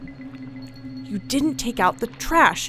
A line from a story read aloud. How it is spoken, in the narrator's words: she hisses